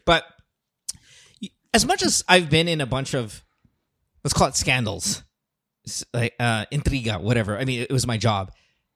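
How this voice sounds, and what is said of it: Strained, fading voice. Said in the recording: “I'm losing my voice here”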